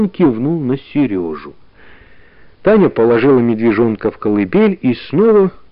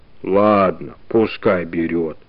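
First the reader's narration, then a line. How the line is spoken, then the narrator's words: Sudden deep bass, bear. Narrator (Russian): вдруг пробасил медведь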